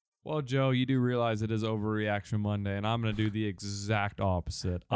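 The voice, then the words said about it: Thick Texas accent. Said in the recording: “It's that thick Texas accent in me. I can't pronounce certain words.”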